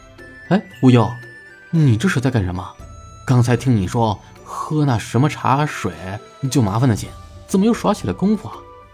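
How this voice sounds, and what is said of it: Quiet, hushed speech. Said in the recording (Chinese): “小声的”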